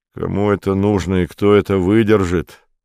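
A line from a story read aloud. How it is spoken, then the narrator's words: Said gloomily. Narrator (Russian): сказал Витька мрачно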